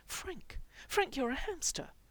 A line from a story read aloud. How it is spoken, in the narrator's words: Mikey said desperately